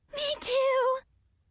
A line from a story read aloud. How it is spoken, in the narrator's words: Zoe squealed